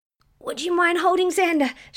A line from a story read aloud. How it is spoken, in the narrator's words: she spluttered